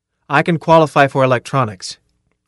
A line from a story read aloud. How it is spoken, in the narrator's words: Carl said firmly